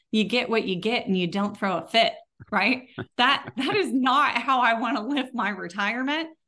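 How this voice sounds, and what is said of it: Texas accent. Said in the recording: “here in my Texas accent”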